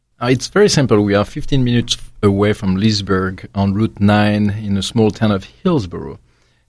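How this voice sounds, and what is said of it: Speaks with a noticeable accent. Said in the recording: “the accent doesn't hurt either. So we love this.”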